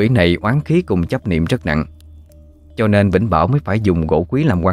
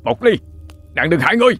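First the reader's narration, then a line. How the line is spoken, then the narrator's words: Shouting through gritted teeth. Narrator (Vietnamese): Cậu đại gia cắn răng hét lớn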